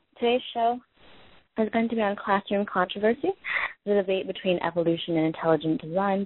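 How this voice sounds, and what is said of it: Slightly raspy, sick-sounding voice. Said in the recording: “I'm a little bit sick, so my voice may sound slightly raspy,”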